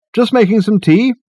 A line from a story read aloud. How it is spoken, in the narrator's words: he called out